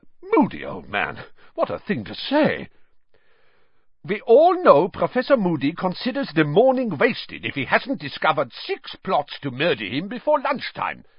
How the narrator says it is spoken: said Karkaroff loudly

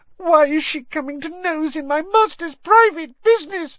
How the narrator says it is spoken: sobbed Winky

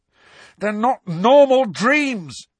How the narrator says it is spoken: Harry shouted in her face

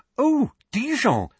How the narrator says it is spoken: said Hermione excitedly

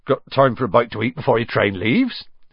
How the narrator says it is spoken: he said

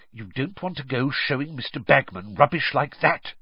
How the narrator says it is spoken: Percy hissed

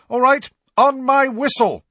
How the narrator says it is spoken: shouted Angelina

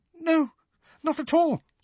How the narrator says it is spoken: squeaked Hermione

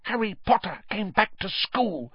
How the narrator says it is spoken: he whispered miserably

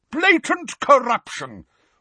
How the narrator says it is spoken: roared the portrait of the corpulent, red-nosed wizard

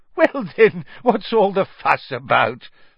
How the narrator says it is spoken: laughed Fudge airily

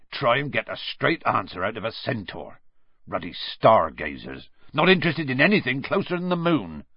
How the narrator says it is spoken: said Hagrid irritably

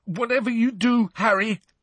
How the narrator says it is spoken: said Neville fiercely ... a clearly broken nose and blood pouring down his mouth and chin

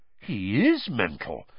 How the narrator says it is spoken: Fred said, in an almost awed voice

